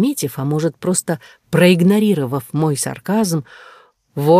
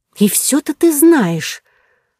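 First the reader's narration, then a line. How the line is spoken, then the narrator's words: Irritated angry hiss. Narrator (Russian): Раздраженно прошипев, я злилась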